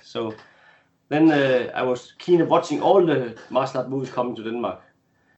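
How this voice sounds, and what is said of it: Danish accent. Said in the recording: “I'm from Denmark, if you didn't recognize my accent.”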